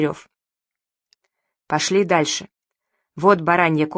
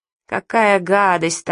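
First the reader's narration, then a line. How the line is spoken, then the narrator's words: Moaned. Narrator (Russian): стонал Евгений Михайлович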